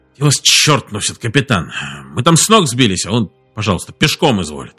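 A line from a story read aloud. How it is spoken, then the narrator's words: Displeased grumbling. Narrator (Russian): Он проснулся, пробурчал недовольно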